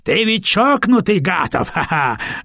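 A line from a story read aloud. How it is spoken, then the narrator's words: Old man laughing loudly. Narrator (Russian): расхохотался старик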